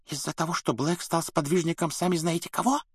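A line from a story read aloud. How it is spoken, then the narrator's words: Whisper. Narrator (Russian): прошептала мадам Розмерта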